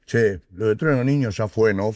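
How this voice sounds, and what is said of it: Imitates another person's voice. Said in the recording (Spanish): “Poniendo la voz”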